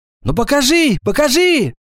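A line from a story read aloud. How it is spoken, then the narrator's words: Shouting together. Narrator (Russian): кричали Гвоздева с Собакиной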